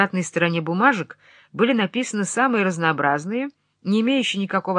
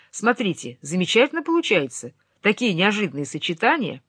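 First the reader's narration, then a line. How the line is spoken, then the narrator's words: Joyful announcement. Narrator (Russian): он радостно объявил мне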